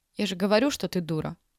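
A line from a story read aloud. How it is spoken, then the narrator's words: Calm. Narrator (Russian): спокойно сказала Юля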